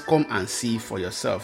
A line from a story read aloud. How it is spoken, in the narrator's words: Philip replied